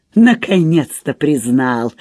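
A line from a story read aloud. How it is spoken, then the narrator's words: Toothless laugh. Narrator (Russian): засмеялась, обнажая беззубые десны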